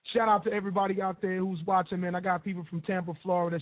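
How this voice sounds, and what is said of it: Hoarse, strained voice. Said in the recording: “My voice is gone... Can't stop the show just because I'm a little bit hoarse”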